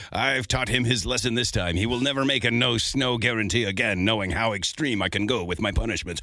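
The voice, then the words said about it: Mock evil villain voice. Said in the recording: “evil voice”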